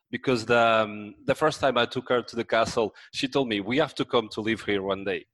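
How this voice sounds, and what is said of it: French accent. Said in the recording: “I brought my French accent”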